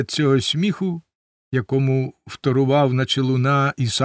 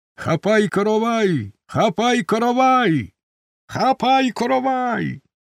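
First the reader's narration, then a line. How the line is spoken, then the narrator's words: Group shouting amid laughter. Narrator (Ukrainian): Шуани зустріли ці слова вибухом дружнього реготу і закричали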